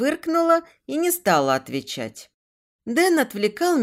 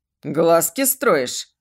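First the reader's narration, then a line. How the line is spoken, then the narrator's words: Smirk over earpiece. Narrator (Russian): хмыкнул Дэн в наушнике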